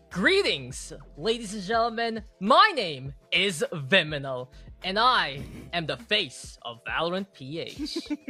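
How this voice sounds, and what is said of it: Imitates a caster's hosting voice. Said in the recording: “do your best impersonation of Viminal when casting or like hosting”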